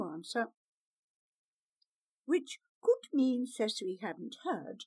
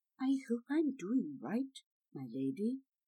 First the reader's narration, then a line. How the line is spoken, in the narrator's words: murmured